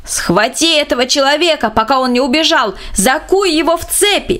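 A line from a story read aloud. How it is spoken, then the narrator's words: Distant shout. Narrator (Russian): С противоположного берега реки бургомистр кричал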